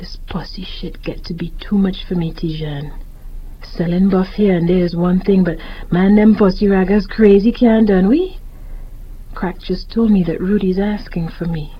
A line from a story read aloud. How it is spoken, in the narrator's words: He sighed, hesitated, then said quietly